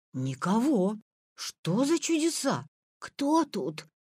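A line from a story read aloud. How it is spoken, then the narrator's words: Timid question. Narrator (Russian): робко спросил Витя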